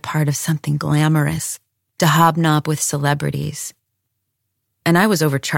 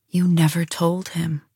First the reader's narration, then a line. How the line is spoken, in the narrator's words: I said quietly